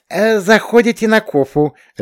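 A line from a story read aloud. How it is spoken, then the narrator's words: Blurted out. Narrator (Russian): ляпнула Гарина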